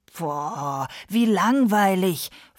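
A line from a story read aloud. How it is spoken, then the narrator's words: Hissing, several voices. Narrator (German): fauchten seine Geschwister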